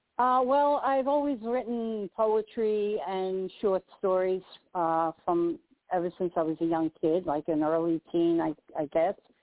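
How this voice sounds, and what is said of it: New York accent. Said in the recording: “If you speak to anyone from New York, we don't have an accent. Everyone else does.”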